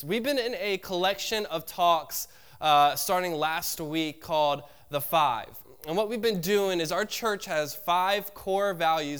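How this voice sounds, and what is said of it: Congested, stuffy voice. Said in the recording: “apologize for my voice ... I'm a little bit congested ... for how I sound”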